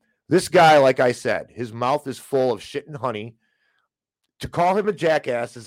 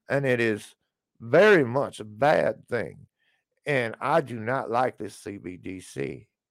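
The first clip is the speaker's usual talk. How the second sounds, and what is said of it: Fake Texas accent, imitates politician. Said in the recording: “I'm not from Texas and I fake my accent”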